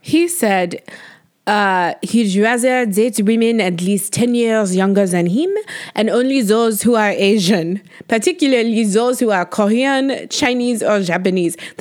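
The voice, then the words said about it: Put-on French accent. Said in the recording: “That was hard to say in a French accent.”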